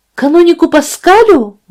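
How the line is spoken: Exclaiming. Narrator (Russian): воскликнула она

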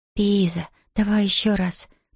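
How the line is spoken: Whispered. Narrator (Russian): прошептала

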